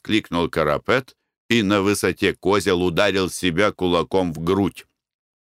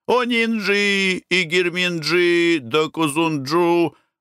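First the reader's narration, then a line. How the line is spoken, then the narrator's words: Shouted out. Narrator (Russian): выкрикивали они свои номера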